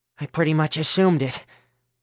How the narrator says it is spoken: Herschel wheezed

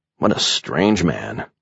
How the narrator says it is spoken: I muttered

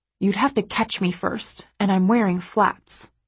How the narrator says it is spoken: I hiss

